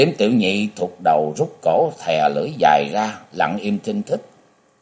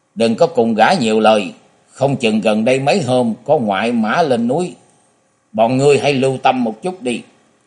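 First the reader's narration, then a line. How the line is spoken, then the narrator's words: Shouted. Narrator (Vietnamese): Tu Tam gia hét nói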